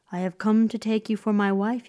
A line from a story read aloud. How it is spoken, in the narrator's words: said, in a melodious voice that pulled at the girl's heart